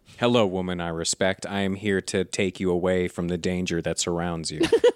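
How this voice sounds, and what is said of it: Boring flat monotone American voice. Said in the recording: “he opens his mouth and it's like a boring American accent ... We made him Ben Stein.”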